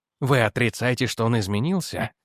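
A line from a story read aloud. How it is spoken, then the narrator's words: Emphatic near-whisper. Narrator (Russian): спросил Эдвардс почти шепотом, но с нажимом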